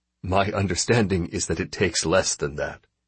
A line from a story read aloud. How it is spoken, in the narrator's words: he replied dryly